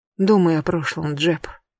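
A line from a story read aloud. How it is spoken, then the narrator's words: Quiet female voice. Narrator (Russian): тихо сказала она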